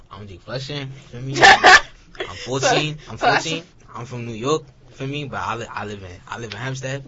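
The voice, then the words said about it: Deep New York accent. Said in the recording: “Got a deep New York accent”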